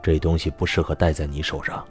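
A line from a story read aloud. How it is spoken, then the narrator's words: Cold. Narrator (Chinese): 叶宵 冷冷的说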